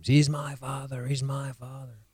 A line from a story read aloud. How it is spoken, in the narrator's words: He screams